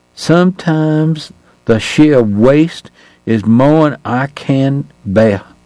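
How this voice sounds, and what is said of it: Weary Southern drawl. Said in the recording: “he had hardly ever spoken to anyone from the South ... Tonight ... was whipped, and that must have made his accent even harder for a foreigner to understand”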